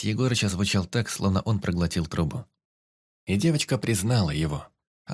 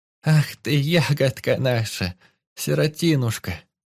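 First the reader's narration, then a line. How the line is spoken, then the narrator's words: Grandmother sobbing, joy and sorrow. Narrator (Russian): Бабуля мгновенно зарыдала, слезы не то радости, не то растревоженной печали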